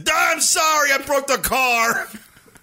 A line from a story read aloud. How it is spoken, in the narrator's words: To shout over the horn